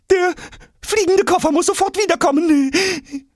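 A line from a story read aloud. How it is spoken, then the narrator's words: Breathless suggestion. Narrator (German): schlägt Vollgas atemlos vor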